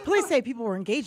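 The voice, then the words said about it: News reporter voice. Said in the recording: “Should I do my news voice?”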